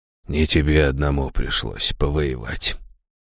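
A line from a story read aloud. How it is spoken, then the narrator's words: Barely audible rustling. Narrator (Russian): чуть слышно прошелестел он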